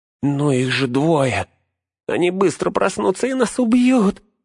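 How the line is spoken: Whining surrender. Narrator (Russian): заскулил Смегрл, сдаваясь

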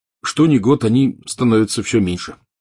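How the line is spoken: Plain. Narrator (Russian): сказал он

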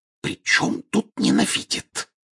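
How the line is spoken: Angry whisper. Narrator (Russian): сердитым шепотом возразила миссис Уизли

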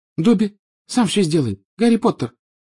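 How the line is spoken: Tearful squeak. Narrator (Russian): пропищал Добби, и его большие, как теннисные мячики, глаза наполнились слезами

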